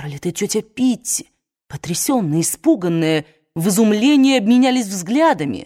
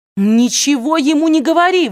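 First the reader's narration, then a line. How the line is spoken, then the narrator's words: Shouted. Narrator (Russian): выкрикнула она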